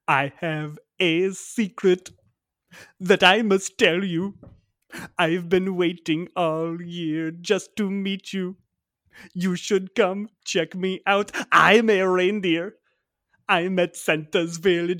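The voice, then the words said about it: Put-on accent copying a reindeer recording. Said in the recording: “I am not doing this accent as like adding in my own. This is, I have practiced this. This is the exact thing that came on.”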